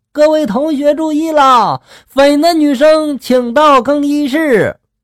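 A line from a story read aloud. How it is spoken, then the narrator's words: Loudspeaker announcement. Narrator (Chinese): 就在这个喇叭里面喊了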